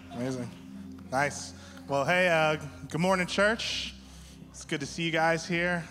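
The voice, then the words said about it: Slightly shaky voice. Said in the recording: “Sorry if my voice is a little shaky. I'm like slightly nervous”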